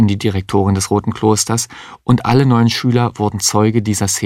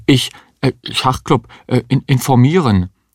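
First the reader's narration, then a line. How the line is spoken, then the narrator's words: Confused student stammering. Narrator (German): Der Schüler wusste gar nicht, was er sich vorzuwerfen hatte und stammelte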